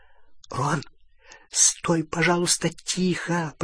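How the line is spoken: Whisper. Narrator (Russian): прошептала Полумна

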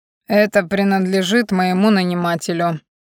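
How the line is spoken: Growling. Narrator (Russian): буквально прорычал он

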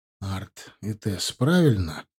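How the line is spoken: Soft yet crisp, hard. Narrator (Russian): голос звучал у нее под стать внешности, мягко, но в то же время слегка хрустяще и жестко

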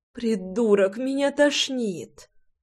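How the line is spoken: Groaning, prickly girl. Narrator (Russian): простонала моя ершистая колючка

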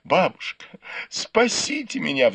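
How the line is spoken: Pleading. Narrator (Russian): взмолилась

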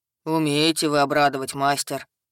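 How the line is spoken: Grumbling mutter. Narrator (Russian): пробурчал Хак

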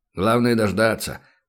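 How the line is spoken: Grumbling. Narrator (Russian): проворчал Бармаглот

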